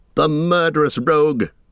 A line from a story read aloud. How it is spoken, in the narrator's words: cried Eomer